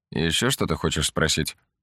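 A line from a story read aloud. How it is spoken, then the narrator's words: Grumbled. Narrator (Russian): буркнул он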